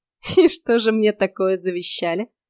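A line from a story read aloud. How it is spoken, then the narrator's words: Strained laugh. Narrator (Russian): натужно рассмеялась я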